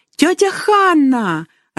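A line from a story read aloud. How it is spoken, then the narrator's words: Joyful squeal. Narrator (Russian): радостно завизжала Дорис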